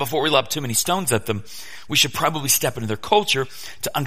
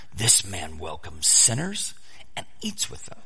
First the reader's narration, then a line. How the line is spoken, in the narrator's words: the Pharisees and the teachers of the law muttered